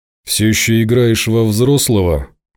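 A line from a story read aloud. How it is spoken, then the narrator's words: Sad wry chuckle. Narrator (Russian): печально усмехнулся Ворожцов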